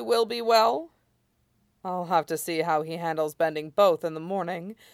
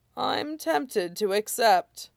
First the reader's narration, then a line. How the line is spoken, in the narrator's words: Iroh chuckled